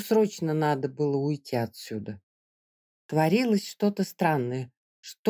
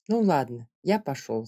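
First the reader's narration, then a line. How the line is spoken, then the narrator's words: Plain. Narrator (Russian): сказал он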